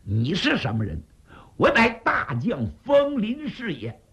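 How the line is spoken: Furious. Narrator (Chinese): 姬书前大怒

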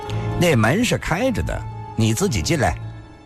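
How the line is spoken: Cold. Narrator (Chinese): 龙小云……只是冷冷地说道

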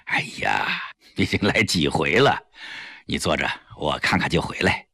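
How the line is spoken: Wry, bitter smile. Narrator (Chinese): 李济深苦笑了一下

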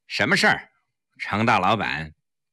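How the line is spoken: Cold. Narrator (Chinese): 冷冷地说

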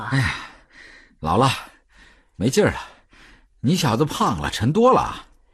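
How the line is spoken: Panting. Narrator (Chinese): 德宝 喘着气说

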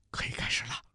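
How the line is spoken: Quiet. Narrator (Chinese): 陆明小声说

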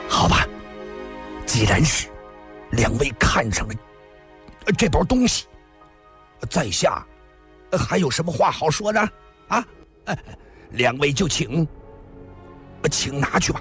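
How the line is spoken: Reluctant, through gritted teeth. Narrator (Chinese): 诸葛雷咬了咬牙

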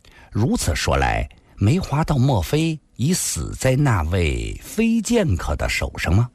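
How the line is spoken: Plain. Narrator (Chinese): 孙老先生继续说道

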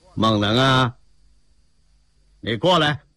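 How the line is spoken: Calling out. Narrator (Chinese): 车里边的人呢在喊

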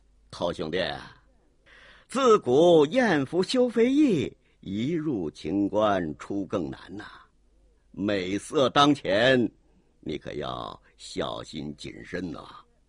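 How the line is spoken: Faint smile. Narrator (Chinese): 卓君明微微一笑

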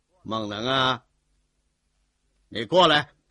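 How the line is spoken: Calling out. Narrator (Chinese): 车里边的人呢在喊

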